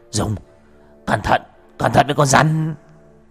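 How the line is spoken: Boy shouting. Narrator (Vietnamese): Thằng Nghĩa hét lên

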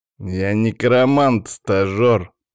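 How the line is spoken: Through gritted teeth. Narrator (Russian): процедил Павел

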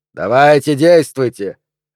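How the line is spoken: Barked drill-sergeant command. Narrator (Russian): рявкнул ведущий тоном сержанта, натаскивающего новобранца

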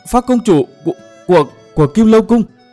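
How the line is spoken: Stammering. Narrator (Vietnamese): Sọa Đại Bửu lắp bắp

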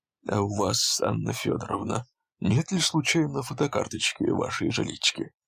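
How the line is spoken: Plain question. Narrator (Russian): спросил Дудин

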